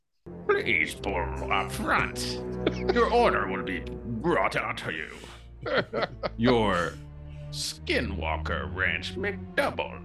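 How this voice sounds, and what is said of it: Emperor character voice. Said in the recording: “in an Emperor voice”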